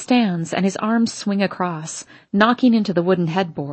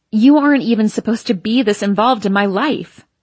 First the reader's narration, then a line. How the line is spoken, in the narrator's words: I shout back